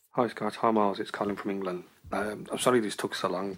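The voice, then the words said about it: British accent. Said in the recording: “British accent”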